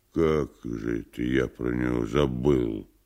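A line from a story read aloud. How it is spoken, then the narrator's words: Dazed mutter. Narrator (Russian): Тупо глядя на вскрытый конверт, пробормотал Никанор Иванович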